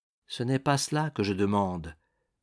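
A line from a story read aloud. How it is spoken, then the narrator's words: Gentle reply. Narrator (French): répondit doucement le veilleur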